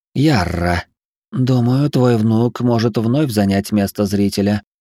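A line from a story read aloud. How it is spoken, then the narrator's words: Soft purring voice. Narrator (Russian): прозвучал за моей спиной мягкий мурлыкающий голос Киззары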